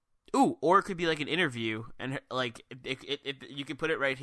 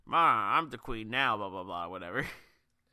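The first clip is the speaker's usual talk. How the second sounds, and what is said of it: Bad 1940s mobster voice. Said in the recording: “When did Becky Lynch become a 1940s mobster? ... We do bad accents.”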